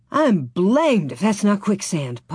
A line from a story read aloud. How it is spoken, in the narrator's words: Pa gasped